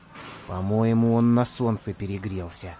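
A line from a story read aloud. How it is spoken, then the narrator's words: Quiet whisper. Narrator (Russian): тихо шепнул Самоделкину Карандаш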